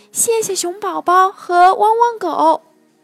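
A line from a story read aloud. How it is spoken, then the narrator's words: Loud butterfly. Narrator (Chinese): 一只蝴蝶，大声说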